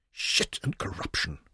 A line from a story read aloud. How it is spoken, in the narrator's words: Leon whispered softly